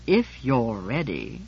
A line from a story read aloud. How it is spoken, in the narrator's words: I said coldly